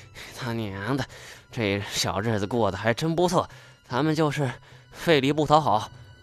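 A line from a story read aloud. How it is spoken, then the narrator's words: Breathless, panting. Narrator (Chinese): 金锁呵哧呵哧的，气喘吁吁的说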